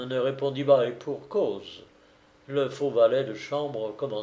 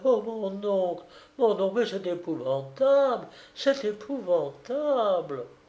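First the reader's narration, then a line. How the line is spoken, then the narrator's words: Feigned annoyed retort. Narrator (French): Feignant d'être agacé par ses criailleries, Shandcock ripostait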